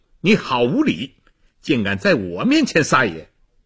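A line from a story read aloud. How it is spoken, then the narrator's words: Furious outburst. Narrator (Chinese): 洗碗的秀才怒不可遏，说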